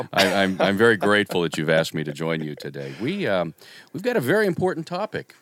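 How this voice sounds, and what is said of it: Silky smooth radio voice. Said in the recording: “silky smooth radio voice”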